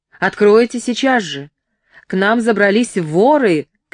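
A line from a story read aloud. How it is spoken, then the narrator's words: Shouting. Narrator (Russian): кричал он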